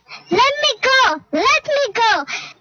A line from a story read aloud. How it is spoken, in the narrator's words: the mother cried